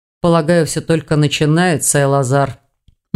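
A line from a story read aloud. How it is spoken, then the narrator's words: Gloomy reply. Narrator (Russian): мрачно отозвался Хью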